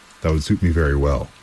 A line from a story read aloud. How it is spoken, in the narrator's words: said the Griffin